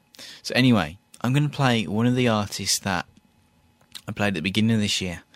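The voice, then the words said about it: British accent. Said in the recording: “the British bands ... Everyone likes British stuff in the States ... people seem to like my accent”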